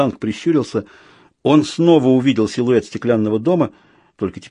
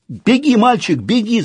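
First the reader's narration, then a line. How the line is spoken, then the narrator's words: Shout. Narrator (Russian): закричал Людзе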